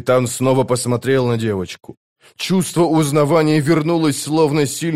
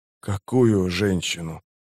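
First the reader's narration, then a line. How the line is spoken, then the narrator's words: Hoarse wheeze. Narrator (Russian): прохрипел Паран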